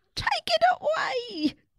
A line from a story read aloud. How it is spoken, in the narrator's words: From the top of the chair they yelled